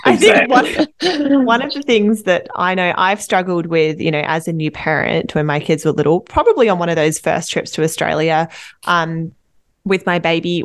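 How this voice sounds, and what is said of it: Australian accent. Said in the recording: “my accent, I'm from Australia”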